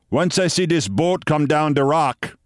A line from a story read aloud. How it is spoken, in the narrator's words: he said